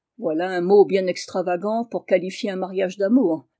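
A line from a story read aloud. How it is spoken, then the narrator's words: Sarcastic sneer. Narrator (French): ricana Julien avec une grimace sarcastique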